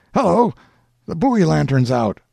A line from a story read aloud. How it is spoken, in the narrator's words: exclaimed